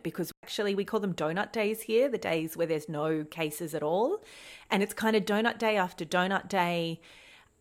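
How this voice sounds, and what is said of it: Australian accent. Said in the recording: “we record this podcast in Australia, as you can probably hear by our accents ... Australian.”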